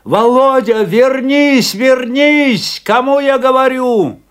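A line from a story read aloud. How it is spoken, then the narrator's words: Shouting. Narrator (Russian): закричал Афанасий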